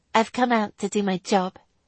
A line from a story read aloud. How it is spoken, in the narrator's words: she corrected stiffly